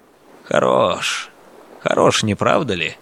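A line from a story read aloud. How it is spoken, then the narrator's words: Admiring mutter. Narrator (Russian): восхищенно пробормотал Григорий Александрович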